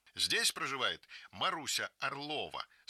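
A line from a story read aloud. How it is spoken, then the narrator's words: Stern question. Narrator (Russian): спрашивает строго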